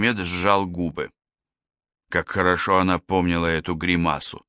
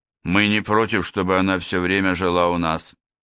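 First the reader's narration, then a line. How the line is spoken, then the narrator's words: Plain. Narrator (Russian): сказал Мехмед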